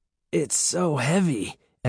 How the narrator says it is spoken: Evan groaned, struggling to pull the bag up

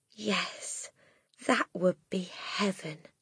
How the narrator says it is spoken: Miss Honey said softly

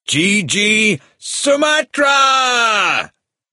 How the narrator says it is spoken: The last word was a shout

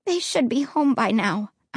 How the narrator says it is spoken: I said, my voice shaky and weak

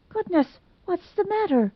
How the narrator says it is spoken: gasped, sitting up in bed

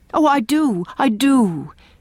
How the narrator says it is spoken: exclaimed Leslie, with an eagerness which seemed to burst forth and beat down some restraint that had been imposed on it

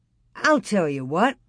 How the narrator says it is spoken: exclaimed

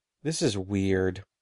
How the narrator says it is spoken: he muttered

